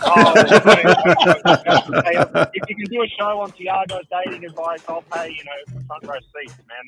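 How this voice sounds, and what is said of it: Florida accent. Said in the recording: “I can smell that accent a mile away. ... That Florida accent.”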